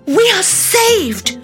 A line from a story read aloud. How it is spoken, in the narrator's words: Amaya cried